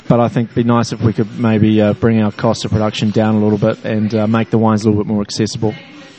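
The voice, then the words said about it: Non-American accent. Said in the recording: “I forget that I have an accent ... another non-American”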